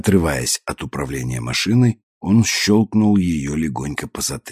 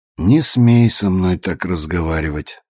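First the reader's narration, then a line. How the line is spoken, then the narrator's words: Calm response. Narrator (Russian): спокойно прореагировал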